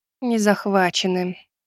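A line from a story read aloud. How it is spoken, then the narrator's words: Sad wry smile. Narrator (Russian): грустно усмехнулась Лита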